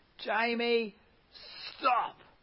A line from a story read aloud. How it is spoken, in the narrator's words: commanding him at the top of my lungs